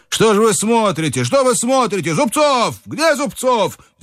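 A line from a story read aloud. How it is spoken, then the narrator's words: Shouting. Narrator (Russian): Иван Ильич, кричал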